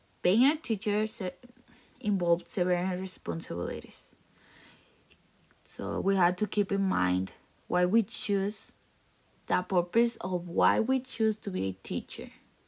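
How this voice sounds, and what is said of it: Hard-to-understand accent, some stuttering. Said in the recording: “it was kind of hard to understand my accent, because I was sometimes like a stutterer.”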